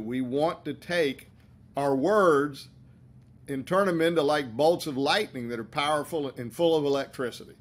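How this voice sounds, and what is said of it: Southern American accent. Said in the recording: “distinct accent ... You got that Southern lightning.”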